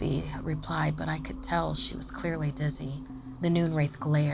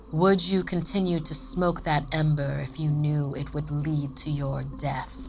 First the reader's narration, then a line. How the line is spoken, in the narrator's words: Sophie sneered